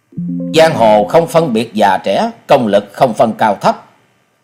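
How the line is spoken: Angry. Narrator (Vietnamese): Gã kiếm khách đi đầu giận dữ nói

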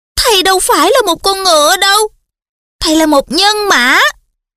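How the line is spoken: Emotional exclamation. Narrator (Vietnamese): Lavender tỏ vẻ xúc động, kêu lên

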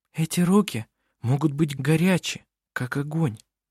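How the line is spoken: Whisper. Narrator (Russian): прошептала Винга остальным

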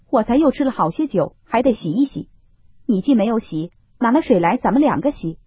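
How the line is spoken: Laughing. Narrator (Chinese): 宝玉笑道

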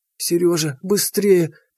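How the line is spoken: Moaning. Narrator (Russian): простонала Лида

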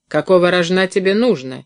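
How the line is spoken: Barked. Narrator (Russian): рявкнул он

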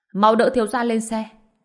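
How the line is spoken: Urgent shout, middle-aged man. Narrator (Vietnamese): Người đàn ông trung tuổi chột mắt, bất chấp vết thương trên người mình, quát

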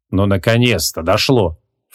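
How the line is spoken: Snorted, magician. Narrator (Russian): фыркнул маг

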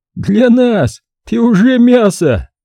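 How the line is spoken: Guard laughing loudly. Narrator (Russian): расхохотался в ответ охранник

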